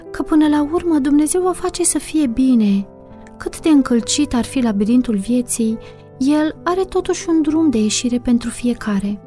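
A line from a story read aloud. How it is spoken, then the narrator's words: Gentle soothing voice. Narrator (Romanian): o liniștea Marieta cu glasul ei blând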